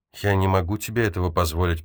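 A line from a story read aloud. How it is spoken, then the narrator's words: Sad. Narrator (Russian): печально ответил он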